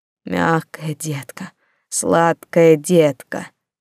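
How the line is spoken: Hoarse rasping. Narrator (Russian): хрипел

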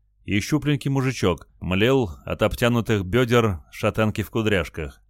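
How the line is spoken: Plain. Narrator (Russian): ответил Олег

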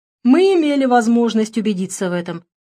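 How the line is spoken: Confirming. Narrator (Russian): подтвердил лысый Боров

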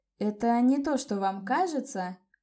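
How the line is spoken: Embarrassed babble. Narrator (Russian): Пролепетала я, густо краснея

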